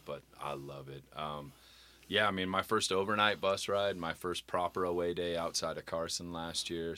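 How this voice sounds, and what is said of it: Strained, hurt-sounding voice. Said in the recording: “My voice is still a little hurt”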